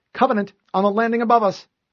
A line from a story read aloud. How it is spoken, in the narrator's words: Cortana called out